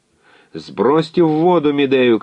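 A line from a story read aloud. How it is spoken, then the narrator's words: Shouting. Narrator (Russian): кричал Экалаид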